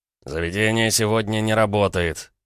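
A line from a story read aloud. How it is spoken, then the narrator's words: Lazy deep bass. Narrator (Russian): справившись с удивлением, лениво пробасил один из здоровяков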